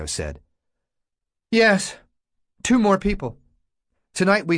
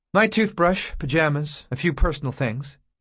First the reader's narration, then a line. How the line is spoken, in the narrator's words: he said in the same dulled, spiritless voice